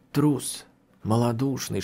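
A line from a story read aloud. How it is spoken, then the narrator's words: Inner whisper. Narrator (Russian): шептал голос в моей душе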